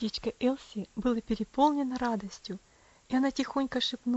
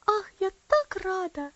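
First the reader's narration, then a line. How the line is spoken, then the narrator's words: Exclaimed by little girl. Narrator (Russian): воскликнула маленькая девочка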